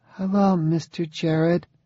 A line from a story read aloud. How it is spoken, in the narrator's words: said Zoe in a small, uncertain voice